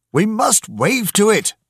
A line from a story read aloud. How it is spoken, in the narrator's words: he shouted